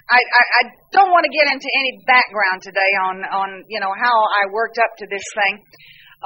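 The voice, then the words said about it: Southern American accent with twang. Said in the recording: “I speak Southern... you got a twang to your talk and you talk a little bit funny”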